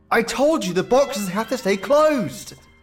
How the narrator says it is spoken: yelled

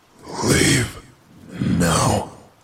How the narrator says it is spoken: It said, with a hoarse wheeze

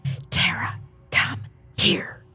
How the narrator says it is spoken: said in a whispery voice, but demanding voice

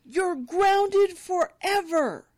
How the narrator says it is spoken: he yells

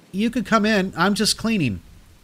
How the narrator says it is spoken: nervously calling out

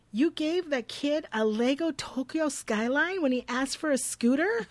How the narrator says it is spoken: exclaiming

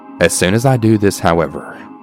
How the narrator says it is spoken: he says in an extremely defensive tone

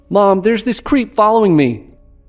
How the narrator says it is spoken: shouted out

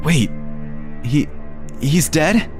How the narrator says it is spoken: her voice wobbling

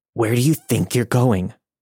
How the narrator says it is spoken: he began, his voice now growling

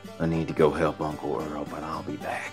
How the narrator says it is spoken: whispered

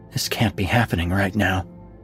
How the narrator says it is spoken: mumble

